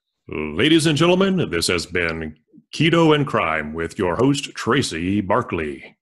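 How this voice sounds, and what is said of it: Booming ring announcer voice. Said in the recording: “in a ring announcer voice?”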